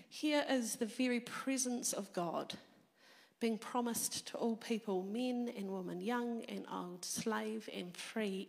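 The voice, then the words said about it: Croaky, hoarse voice. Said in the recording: “I've had a cold this week, and so my voice is a little croaky”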